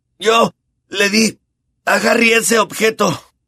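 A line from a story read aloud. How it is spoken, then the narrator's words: Choked voice. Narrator (Spanish): dijo con la voz ahogada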